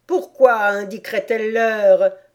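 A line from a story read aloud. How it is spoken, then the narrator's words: Grumpy growl. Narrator (French): grogna le chapelier avec humeur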